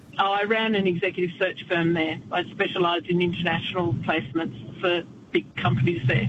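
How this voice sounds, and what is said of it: Australian accent. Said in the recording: “I had a bit of an advantage as an Aussie because I'd be talking to Dutch to pitch my business and they just like listening to my accent”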